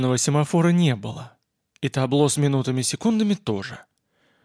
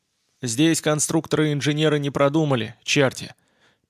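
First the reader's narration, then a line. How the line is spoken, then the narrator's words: Grumbling. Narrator (Russian): проворчал Боб Адамс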